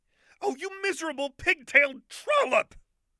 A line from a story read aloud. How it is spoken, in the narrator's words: Lux shrieked